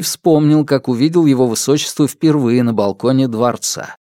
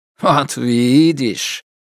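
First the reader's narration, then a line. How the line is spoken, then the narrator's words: Pleased snort. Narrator (Russian): Герман довольно хмыкнул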